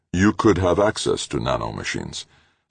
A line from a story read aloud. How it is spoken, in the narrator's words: Simpson said, flatly, not accusative